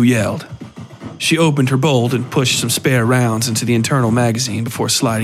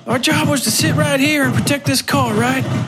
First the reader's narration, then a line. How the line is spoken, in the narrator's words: She screamed